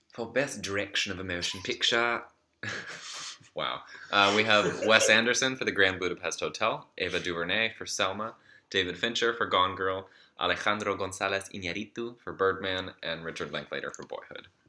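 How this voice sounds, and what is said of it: Put-on British accent. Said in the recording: “go to a British accent ... Classes it up.”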